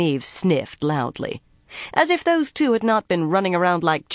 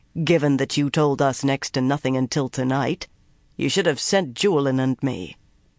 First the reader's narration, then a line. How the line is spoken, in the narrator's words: he said dryly